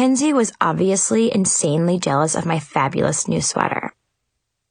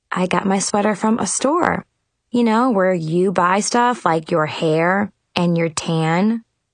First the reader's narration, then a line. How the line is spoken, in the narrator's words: calmly answered